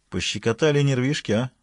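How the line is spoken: Plain question. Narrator (Russian): спросил он Шиван

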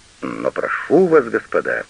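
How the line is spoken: Pleading exclamation. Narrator (Russian): умоляюще воскликнул Карандаш

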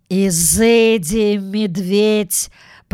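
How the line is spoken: Dramatic tone. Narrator (Russian): проговорил он драматическим тоном

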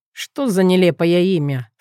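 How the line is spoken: Scornful snort. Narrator (Russian): фыркнул он

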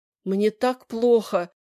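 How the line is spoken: Moaning. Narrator (Russian): простонала миссис Лаани

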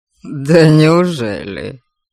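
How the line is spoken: Mocking surprise. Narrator (Russian): Насмешливо удивился Кейман

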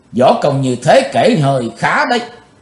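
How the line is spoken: Indifferent. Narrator (Vietnamese): Giọng của chàng lãnh đạm thốt lên

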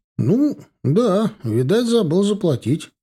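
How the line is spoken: Confused laugh. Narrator (Russian): рассмеялся Ефим растерянно

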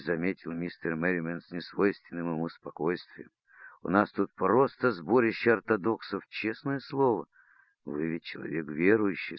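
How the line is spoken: Plain. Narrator (Russian): сказала мисс Эбботт

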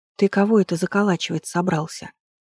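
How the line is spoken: Whisper. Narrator (Russian): шепнула я ему

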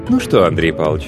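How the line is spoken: Stern, official voice. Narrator (Russian): Голос Алевтины Викторовны был строг и официален

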